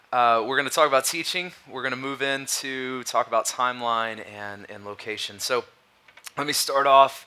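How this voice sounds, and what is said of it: Strained, fading hoarse voice. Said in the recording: “my voice sounds weird ... I'm fighting something ... I feel like I'm losing my voice”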